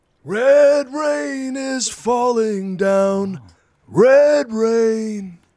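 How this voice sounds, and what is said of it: Impression of a male singer. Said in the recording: “one of the only impersonations I do is a singer... Peter Gabriel”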